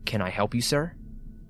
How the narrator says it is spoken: calmly say

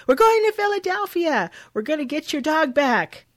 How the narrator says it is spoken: Jenny yells back

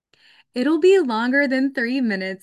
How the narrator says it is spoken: exclaimed

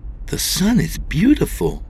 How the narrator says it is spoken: exclaimed

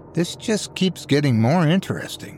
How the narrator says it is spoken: Yurik muttered

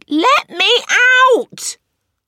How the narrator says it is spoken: her shout

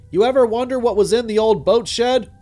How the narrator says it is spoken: He yelled

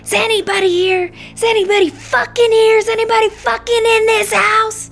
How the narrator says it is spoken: Screaming

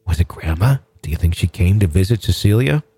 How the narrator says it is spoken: She continued in a hushed whisper

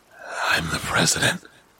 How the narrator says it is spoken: it said, in a low, hissing whisper

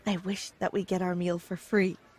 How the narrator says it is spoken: I whispered

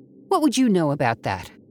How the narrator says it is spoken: Abby snapped

